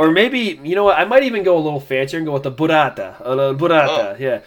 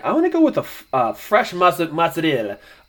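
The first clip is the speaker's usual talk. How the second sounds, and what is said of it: Put-on Italian accent. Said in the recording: “great Italian accent”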